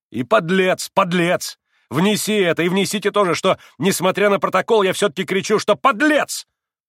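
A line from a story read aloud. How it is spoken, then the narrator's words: Shouting. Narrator (Russian): прокричал он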